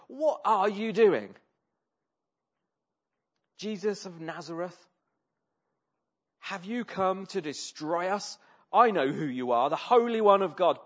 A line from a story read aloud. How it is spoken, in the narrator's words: He cried out at the top of his voice